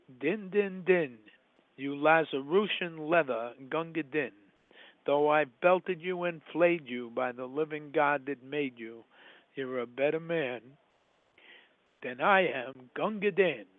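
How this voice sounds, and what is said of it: New York accent. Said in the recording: “That's Rudyard Kipling with a New York accent. You can call it a New York accent.”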